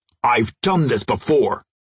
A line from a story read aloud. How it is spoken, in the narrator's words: Crusher snapped